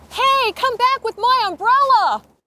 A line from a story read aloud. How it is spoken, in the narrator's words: She was yelling